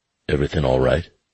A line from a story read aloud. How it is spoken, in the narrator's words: he asked gruffly